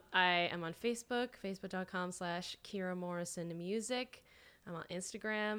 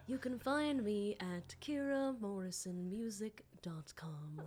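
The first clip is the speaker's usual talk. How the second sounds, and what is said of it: Public-radio announcer voice. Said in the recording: “talking in my like NPR voice”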